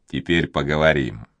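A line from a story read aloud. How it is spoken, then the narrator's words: Serious tone. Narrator (Russian): Монбар серьезным тоном произнес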